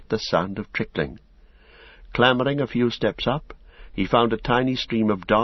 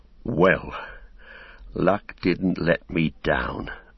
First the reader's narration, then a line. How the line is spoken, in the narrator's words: muttered Sam